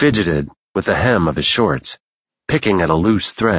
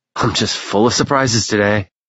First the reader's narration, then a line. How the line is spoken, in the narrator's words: he said with a sad-sounding chuckle